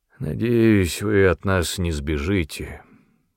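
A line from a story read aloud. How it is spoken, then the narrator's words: Weary. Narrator (Russian): сказал устало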